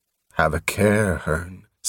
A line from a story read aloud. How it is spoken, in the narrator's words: said Cord Rusta softly